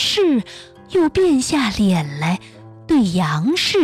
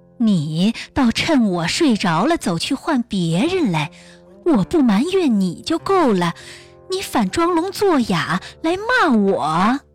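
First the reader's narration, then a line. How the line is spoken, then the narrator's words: Teasing reply. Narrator (Chinese): 易清故意来取笑他，就答应道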